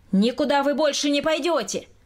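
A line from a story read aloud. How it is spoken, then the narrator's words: Shouted again. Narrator (Russian): Опять закричал Николай Васильевич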